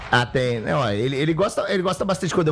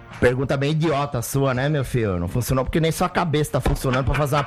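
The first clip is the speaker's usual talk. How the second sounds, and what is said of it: Imitates another person's voice. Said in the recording (Portuguese): “quando eu faço o Muricy ... ele pede o Muricy”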